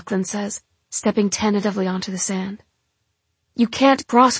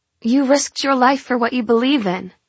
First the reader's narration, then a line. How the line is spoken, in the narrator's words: I shout across the blistering sands